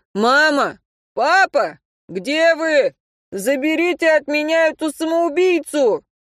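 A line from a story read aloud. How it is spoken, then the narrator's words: Shouted. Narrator (Russian): Антон закричал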